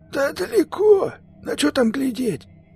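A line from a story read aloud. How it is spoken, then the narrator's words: Hoarse voice. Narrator (Russian): ответил ему сиплый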